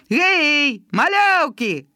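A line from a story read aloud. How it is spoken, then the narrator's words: Shouted from afar. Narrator (Belarusian): крыкнуў гаркавы з баржы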